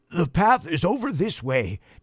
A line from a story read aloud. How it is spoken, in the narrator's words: Jackson wheezed